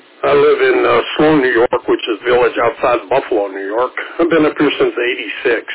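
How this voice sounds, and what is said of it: West Virginia accent. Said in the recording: “West Virginia accent and not the Western New York accent”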